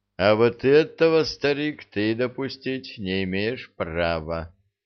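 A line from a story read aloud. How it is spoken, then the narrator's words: Affectionate. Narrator (Russian): сказал Седой ласково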